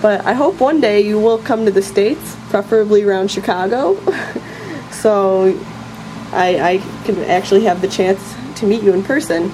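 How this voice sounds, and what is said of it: American accent. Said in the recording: “as you can probably tell by my accent, I live in America”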